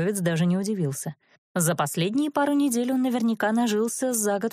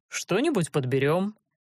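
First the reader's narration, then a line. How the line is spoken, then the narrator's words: Casual, offhand promise. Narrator (Russian): небрежным тоном пообещал Карст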